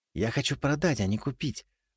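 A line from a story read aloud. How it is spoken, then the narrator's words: Conspiratorial whisper. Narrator (Russian): заговорщически прошептал я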